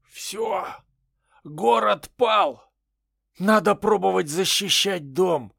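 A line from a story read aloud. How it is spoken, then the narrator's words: Heavy exhale. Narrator (Russian): Тяжело выдохнул Луг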